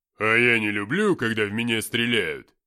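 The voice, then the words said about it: Mocking imitation of another's line. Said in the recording (Russian): “передразнил Филиппыч”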